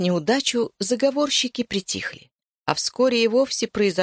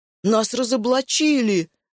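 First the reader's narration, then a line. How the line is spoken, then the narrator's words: Vexed exclamation. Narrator (Russian): воскликнул Пыпин, не скрывая досады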